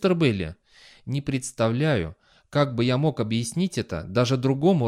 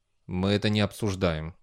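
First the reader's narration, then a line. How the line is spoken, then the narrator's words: Grumbling. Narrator (Russian): буркнул Бейли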